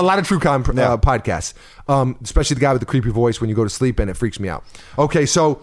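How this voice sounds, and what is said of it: Usual voice. Nothing is said of it.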